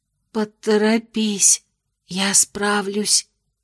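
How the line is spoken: Whisper. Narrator (Russian): прошептала Аделин

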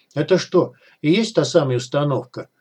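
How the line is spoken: Plain. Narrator (Russian): спросил Артур

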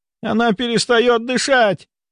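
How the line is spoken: Shouted. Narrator (Russian): крикнула Раиса Павловна

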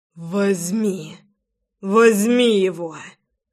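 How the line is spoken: Hoarse wheeze. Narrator (Russian): Просипел я

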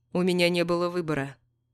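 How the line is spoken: Calm. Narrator (Russian): спокойно говорит Брайан

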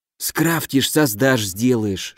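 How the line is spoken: Whispered. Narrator (Russian): шепнул Дима

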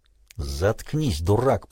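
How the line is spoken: Hissed. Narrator (Russian): прошипел Белый

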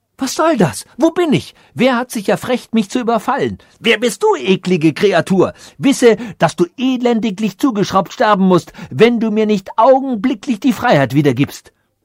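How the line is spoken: Called out. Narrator (German): Diopterich fand wieder Kontakt zu seinem Verstand und rief

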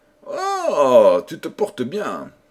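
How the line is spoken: Threatening voice. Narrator (French): repartit le prince d'une voix menaçante

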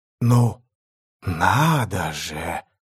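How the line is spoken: Drawling. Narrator (Russian): протянула

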